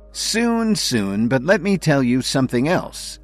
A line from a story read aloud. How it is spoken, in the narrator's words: he replied